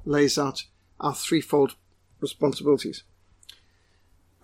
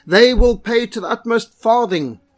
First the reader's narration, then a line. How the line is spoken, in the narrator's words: he roared